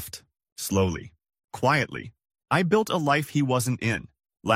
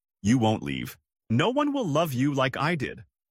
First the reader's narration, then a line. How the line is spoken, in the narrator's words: He once laughed in my face and said